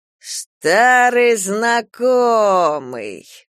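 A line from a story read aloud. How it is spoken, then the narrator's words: Drawling man. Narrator (Russian): протянул человек в кожанке, узнав Прохора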